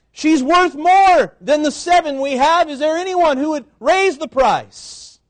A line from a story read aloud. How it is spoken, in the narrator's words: The auctioneer begins to shout